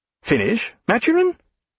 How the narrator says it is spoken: cried Sir Joseph in a startled voice

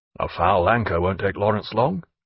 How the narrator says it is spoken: muttered Jack

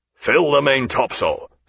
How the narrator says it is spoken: said Jack in a strong, displeased voice

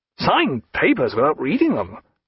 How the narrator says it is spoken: cried Sir Joseph

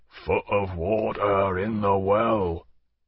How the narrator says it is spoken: in a rumble that could have been heard at the masthead

